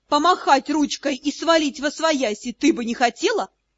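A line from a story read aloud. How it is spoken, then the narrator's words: Giggling. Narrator (Russian): хихикнул Шон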